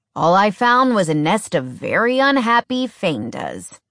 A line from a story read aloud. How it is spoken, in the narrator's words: Bear grumbled